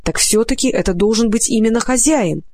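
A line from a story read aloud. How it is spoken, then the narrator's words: Excited horse's voice. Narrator (Russian): взволнованно произнес белый конь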